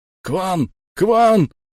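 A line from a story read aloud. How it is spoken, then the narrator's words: Yelling. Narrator (Russian): орал крюкомет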